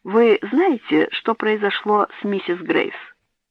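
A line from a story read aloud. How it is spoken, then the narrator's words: Velvety voice, puffing. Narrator (Russian): Попыхивая, сказал своим бархатным голосом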